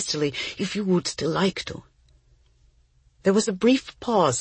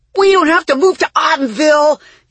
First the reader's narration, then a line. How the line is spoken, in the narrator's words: yelled Oliver